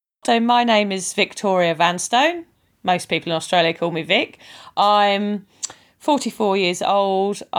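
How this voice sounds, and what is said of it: British accent. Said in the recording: “I'm originally from the UK, as you can probably tell by my accent.”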